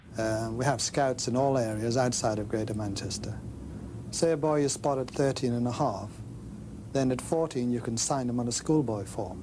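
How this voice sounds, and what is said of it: Posh northern English accent. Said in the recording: “old posh bloke ... a really posh northern person. Like, he had a really northern accent, but really posh at the same time”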